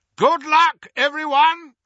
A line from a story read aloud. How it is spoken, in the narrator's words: shouted Moody